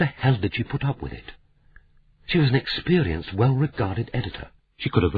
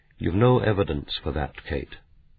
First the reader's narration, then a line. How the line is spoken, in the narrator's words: said quietly